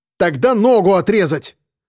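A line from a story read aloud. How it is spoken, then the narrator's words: Insistent, angry. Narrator (Russian): не унимался Костя, зло блеснув глазами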